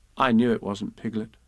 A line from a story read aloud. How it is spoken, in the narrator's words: said Kanga